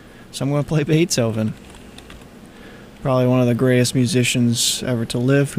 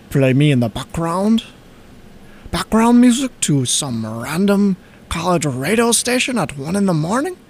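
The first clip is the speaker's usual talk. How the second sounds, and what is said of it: Vague put-on accent voicing Beethoven. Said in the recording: “I don't know what accent I'm doing, but I don't know where he's from.”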